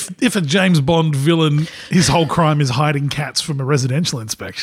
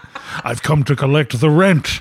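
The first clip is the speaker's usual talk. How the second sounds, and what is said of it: Poor put-on Scottish accent. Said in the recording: “That was a terrible Scottish accent.”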